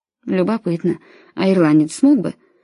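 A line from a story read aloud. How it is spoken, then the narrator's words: Muttering. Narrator (Russian): пробормотал отец Келли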